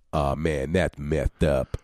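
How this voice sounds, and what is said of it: Imitates another person's voice. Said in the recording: “The medal of impressions... I have listened to a lot of Ice-T in my day”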